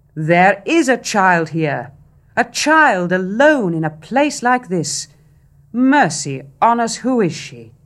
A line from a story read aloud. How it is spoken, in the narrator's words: a large officer cried out